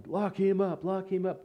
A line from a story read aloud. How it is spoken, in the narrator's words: people in the back that were yelling